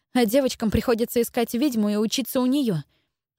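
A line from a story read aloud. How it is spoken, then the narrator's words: Angry, plaintive interruption. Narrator (Russian): перебила Джелис сердито и вместе с тем жалобно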